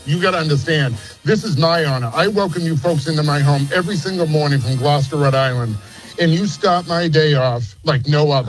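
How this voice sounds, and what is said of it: Noticeable regional accent. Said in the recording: “Your accent is making me so happy.”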